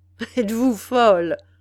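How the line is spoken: Laughing interruption. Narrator (French): interrompit le montagnard en riant

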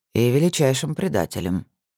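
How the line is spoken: Mutter into beard. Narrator (Russian): буркнул в бороду Рутинян

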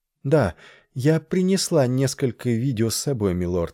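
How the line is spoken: Plain. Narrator (Russian): ответила Масс

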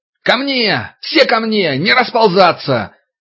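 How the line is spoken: Deafening yelling. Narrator (Russian): Ержан орал так, что у Вити закладывало уши

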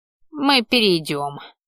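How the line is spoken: Sulky muttering. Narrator (Russian): насупившись, пробурчал маг

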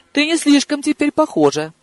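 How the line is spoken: Sad man complaining. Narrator (Russian): посетовал грустно мужчина

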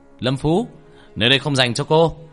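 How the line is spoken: Guard's shout. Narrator (Vietnamese): Quỷ binh canh ngục quát lên

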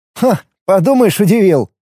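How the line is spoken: Scoffing snort. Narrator (Russian): хмыкнул скрипач

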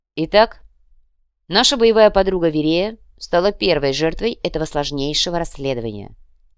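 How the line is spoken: Businesslike tone. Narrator (Russian): деловым тоном сообщила воевода

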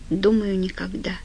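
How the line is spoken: Quiet. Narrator (Russian): сказала она тихо

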